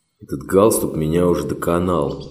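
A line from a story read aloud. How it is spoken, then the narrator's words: Grumbling. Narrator (Russian): проворчал он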